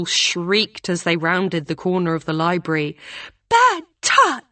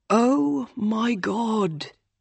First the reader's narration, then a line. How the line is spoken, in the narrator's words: Will groaned